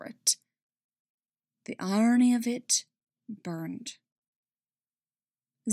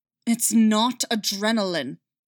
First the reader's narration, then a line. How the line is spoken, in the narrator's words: Callus snarled back